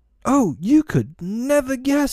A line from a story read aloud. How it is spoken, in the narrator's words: she cried